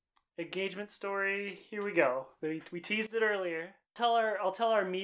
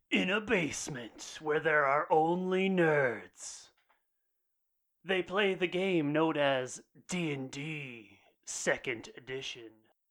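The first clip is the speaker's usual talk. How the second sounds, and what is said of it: Bad movie trailer voice. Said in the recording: “bad movie trailer voice”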